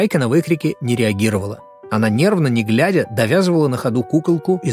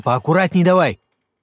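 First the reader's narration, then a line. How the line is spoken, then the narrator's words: Barked shout. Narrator (Russian): рявкнул Серега, испуганно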